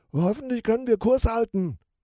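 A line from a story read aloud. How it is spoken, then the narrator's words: Called out. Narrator (German): ruft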